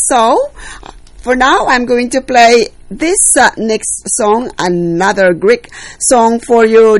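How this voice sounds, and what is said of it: Filipino accent. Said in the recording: “Sorry about my accent. I'm a Filipino, so I have to apologize my accent.”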